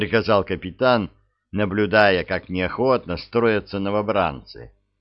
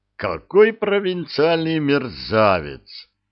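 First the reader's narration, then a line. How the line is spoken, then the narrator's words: Grumbling. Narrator (Russian): проворчал Разданов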